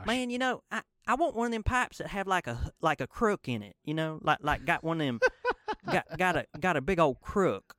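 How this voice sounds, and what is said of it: Thick put-on Mississippi accent. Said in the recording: “I'm gonna do my real thick Mississippi accent.”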